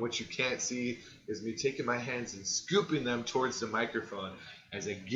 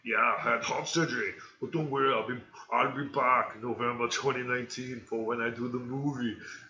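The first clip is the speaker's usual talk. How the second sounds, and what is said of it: Poor imitation of another person's voice. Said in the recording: “my bad Arnold Schwarzenegger impression”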